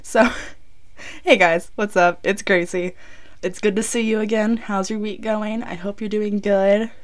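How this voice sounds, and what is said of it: Sick, strained, sore-throated voice. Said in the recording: “I'm a little out of it right now, if you can't tell from my voice. I have gotten sick again. ... talk louder than a whisper and not be in too much pain ... My throat really hurts.”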